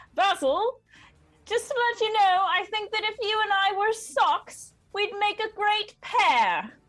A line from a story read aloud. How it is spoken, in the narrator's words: to inspire him, she'll just yell over the crater